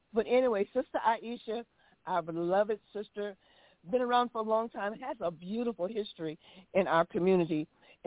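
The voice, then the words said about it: Slightly cracked voice. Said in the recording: “my voice is a little cracked this morning”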